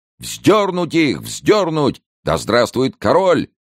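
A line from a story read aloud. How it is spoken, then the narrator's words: Shouting crowd. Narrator (Russian): кричала толпа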